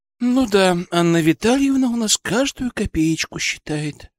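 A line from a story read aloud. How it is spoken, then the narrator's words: Sigh. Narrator (Russian): вздохнула Вероника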